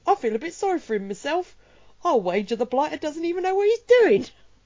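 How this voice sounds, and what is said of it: Put-on Cockney soldier accent. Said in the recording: “two little Cockney soldiers ... that was me doing an impression of what they're saying. That wasn't just my natural, the way I speak naturally, because I am English.”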